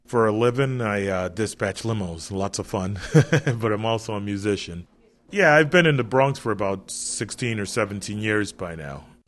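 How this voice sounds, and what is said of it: Typical American East Coast accent. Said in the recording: “sounds like a typical East Coaster ... You'd never know it from the accent”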